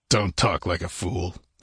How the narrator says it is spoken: he grunted

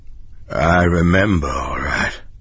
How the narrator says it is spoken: Ed said grimly

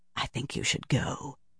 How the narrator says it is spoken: Shiryam said softly

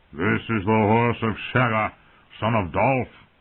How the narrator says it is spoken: he roared at the stable boy

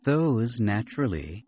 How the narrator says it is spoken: Verger said blandly

